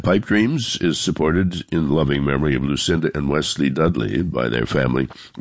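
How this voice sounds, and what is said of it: Voice sounds congested, under the weather. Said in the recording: “I do apologize for my voice. I've come down with a cold”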